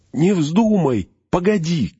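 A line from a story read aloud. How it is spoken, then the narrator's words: Shout. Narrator (Russian): крикнул Фродо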